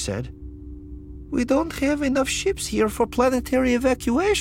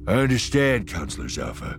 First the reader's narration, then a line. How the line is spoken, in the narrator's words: Eka said, his voice steady now